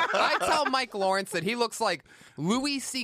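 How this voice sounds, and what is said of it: Usual voice. Nothing is said of it.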